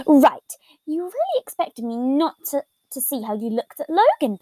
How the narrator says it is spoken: Patton grumbled out

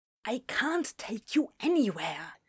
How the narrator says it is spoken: hissed Aziraphale under his breath

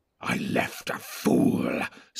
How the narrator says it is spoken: snarled Grishnak

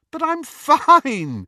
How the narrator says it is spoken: said Lily, still giggling

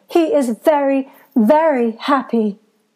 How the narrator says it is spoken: Georgiana continued in an even fiercer tone

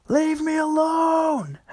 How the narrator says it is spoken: Henry screams

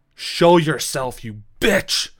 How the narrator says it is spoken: he screams again

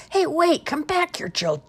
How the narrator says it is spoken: yelled Jerome

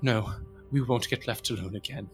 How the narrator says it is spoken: tears beating at the corners of her eyes, breathes hard, murmurs

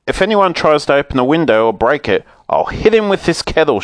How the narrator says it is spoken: shouted Moonface

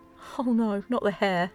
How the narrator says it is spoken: said, laughing and sighing at the same time

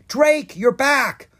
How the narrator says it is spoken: Bo cried

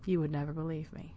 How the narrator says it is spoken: he murmured to himself

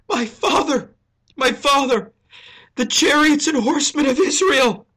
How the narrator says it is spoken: He sobs

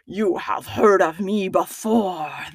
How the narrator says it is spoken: the bogey beast snarled

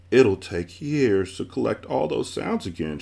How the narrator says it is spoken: she sobbed

